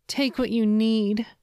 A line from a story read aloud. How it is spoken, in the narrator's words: she pleaded